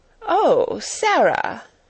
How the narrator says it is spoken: she exclaimed, endeavoring to produce a suitable smile

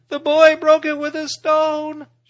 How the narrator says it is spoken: shrieked Darzi's wife

